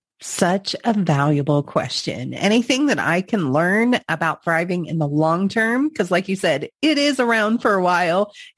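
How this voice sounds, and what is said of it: Slightly congested voice. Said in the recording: “I'm slightly congested today, I apologize if my voice sounds off”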